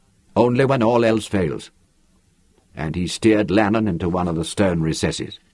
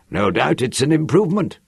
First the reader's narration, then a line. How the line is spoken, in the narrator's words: Hui grunted